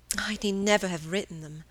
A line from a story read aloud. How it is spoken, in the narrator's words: sighed Margaret